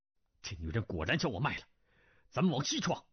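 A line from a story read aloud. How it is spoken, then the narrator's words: Through gritted teeth. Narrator (Chinese): 胡斐咬牙道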